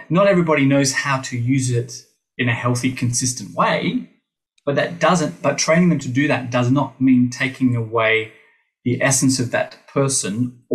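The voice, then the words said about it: Hybrid British-Australian accent. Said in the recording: “I have this weird hybrid British Australian accent thing happening ... you sound British”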